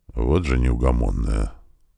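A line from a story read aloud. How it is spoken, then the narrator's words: Muttered under breath. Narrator (Russian): пробормотал герцог себе под нос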